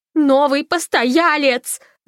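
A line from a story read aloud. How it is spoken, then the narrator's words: Yelling. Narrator (Russian): завопила Фанни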